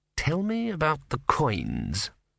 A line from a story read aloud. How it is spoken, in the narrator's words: murmured Vorbis